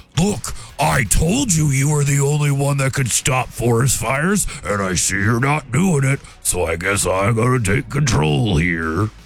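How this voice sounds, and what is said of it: Imitated bear character voice. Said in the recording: “That was my bear impression.”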